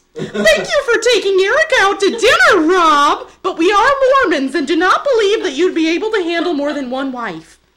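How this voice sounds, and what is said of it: Put-on accent for a mother character. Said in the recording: “I'm a mother now, so I'm going to switch accents.”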